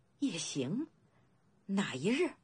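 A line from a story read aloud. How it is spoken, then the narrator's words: Trembling question. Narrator (Chinese): 颤声问道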